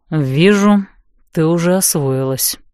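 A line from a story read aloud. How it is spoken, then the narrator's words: Displeased grumble. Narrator (Russian): недовольно буркнул Нокс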